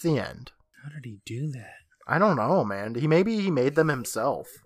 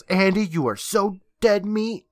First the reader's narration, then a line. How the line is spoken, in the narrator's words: he yells